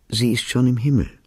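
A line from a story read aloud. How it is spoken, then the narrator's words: Gentle. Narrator (German): wiederholte er sanft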